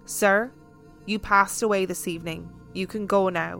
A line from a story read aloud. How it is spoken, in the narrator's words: said calmly